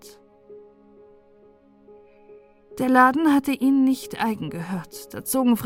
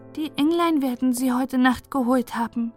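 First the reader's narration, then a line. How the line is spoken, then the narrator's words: Said calmly. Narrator (German): sagte Margretchen ruhig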